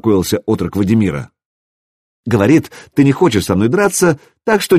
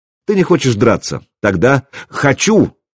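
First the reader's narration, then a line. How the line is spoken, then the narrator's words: Exclaiming. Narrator (Russian): воскликнул Домослав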